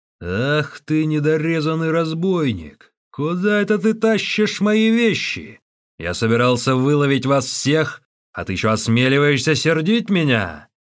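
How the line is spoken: Thunderous giant's shout. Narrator (Russian): великан громовым голосом вскричал

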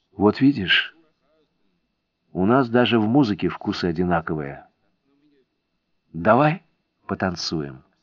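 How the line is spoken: Whispered. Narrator (Russian): прошептала

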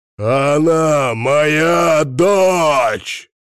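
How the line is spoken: Enraged roar. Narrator (Russian): взревел Серганов

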